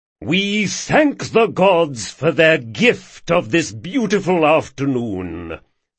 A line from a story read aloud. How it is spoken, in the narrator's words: thundered Jasmer